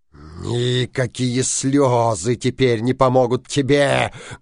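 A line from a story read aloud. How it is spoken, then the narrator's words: Menacing. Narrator (Russian): грозно сказал Синяя Борода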